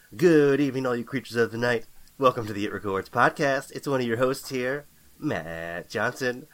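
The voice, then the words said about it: Late-night radio disc jockey voice. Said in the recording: “that voice you got going there ... my disc jockey voice if I had like the midnight shift ... cool, coming over the airwaves”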